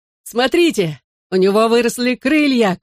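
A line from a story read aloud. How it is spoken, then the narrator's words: Shouting. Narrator (Russian): крикнул я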